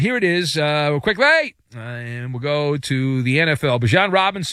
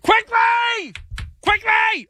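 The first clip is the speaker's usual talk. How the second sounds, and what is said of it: Yelling loudly. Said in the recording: “why are you yelling at me? Don't yell at me.”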